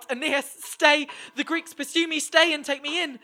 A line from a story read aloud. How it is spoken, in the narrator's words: Polyxena cried out